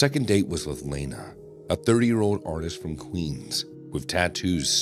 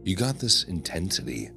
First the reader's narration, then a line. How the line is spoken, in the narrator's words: Lena murmured